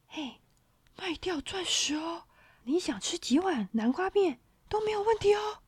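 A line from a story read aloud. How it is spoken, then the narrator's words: Lowered voice. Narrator (Chinese): 小精灵把声音压低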